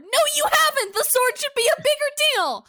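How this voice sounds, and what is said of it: Yelling. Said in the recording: “I'll stop yelling about it.”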